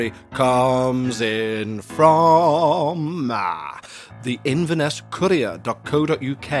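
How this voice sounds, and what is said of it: Usual voice. Nothing is said of it.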